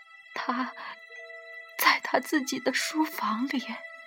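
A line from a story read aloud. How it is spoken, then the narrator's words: Old woman's trembling answer. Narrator (Chinese): 老太太颤声答道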